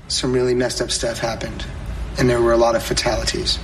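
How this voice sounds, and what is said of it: Mock-serious voice. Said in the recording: “You're putting your serious voice on”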